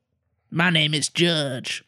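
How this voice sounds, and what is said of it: Imitates another person's voice. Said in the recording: “That's my Judge Reinhold impression.”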